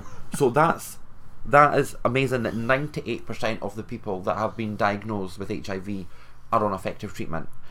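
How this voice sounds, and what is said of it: Speaks with a regional accent. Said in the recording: “It's just your accent.”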